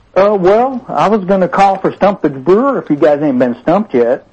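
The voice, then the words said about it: Southern drawl. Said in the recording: “Like the Southern Drawl.”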